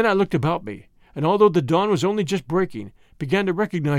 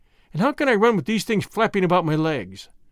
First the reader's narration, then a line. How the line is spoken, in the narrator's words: I asked sleepily